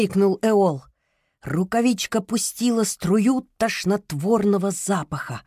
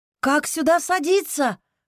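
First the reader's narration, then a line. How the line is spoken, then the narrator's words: Shouting over loud roar. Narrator (Russian): прокричала она Топинаду поверх рокота огромной розы ветров в задней части литобуса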